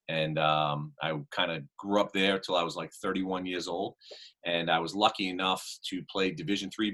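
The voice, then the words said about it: Boston accent. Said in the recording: “I picked up on the Boston accent”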